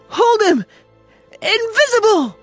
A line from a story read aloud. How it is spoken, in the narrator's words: There were excited cries of